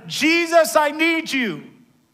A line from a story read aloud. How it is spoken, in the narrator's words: He began to shout even louder